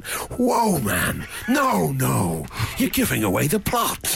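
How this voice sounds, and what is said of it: Imitates another person's voice, pirate-like. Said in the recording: “That's a very good impression of Liam Neeson ... So good pirate Neeson ... He sounds like Captain Matt Sparrow”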